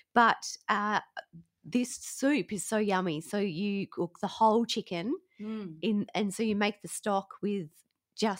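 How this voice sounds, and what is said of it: Sick-sounding, recovering voice. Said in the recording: “people had the flu in my house. You might be able to tell by my voice that I'm on the other side of it”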